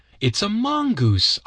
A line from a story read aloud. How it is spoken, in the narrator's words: cried